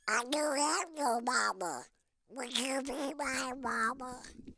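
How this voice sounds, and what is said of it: Cartoon duck character voice. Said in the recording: “did that voice for Hanna-Barbera ... talking like a duck”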